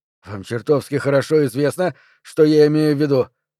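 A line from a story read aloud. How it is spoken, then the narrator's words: Irritated. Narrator (Russian): раздраженно ответил Перри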